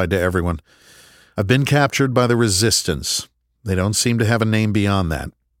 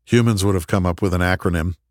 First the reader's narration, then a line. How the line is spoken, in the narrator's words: Garfield said with a chuckle